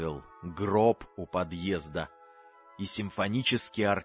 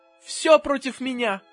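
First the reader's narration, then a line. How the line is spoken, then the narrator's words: Mother shouting. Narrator (Russian): кричала мама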